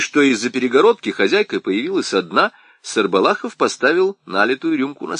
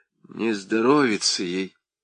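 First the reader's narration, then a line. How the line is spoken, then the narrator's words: Quiet reply. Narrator (Russian): тихо ответила Анис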